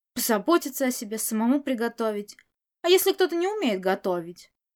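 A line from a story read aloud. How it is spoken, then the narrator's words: Irritated grumble. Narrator (Russian): проворчал раздраженный Можань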